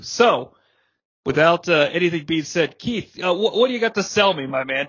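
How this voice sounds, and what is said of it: Strained, failing voice. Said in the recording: “I'm about to lose my voice, too... I appear to be legitimately losing my voice.”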